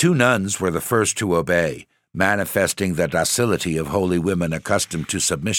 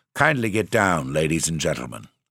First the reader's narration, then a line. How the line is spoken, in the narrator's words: In Alsatian French, he requested the travelers to alight, saying stiffly